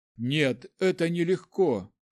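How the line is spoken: Heavy voice. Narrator (Russian): тяжелым голосом ответила Зарифа

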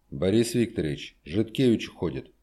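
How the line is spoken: Quiet, over intercom. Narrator (Russian): тихо проговорил в трубку прямого переговорного устройства дежурный врач

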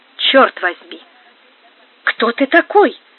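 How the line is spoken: Exclaiming. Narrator (Russian): воскликнул Альфонс

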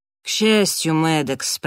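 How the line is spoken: Grumbled mutter. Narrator (Russian): пробурчала Келли

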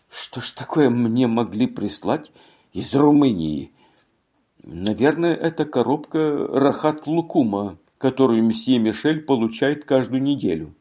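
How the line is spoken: Muttered. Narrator (Russian): она бормотала

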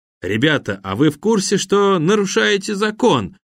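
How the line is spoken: Cheerful fox asking. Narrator (Russian): весело поинтересовался пустынный лис

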